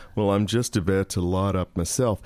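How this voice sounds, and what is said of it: Sarcastic imitation of another person's voice. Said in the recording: “this sarcastic voice came across going ... what a great impersonation that was”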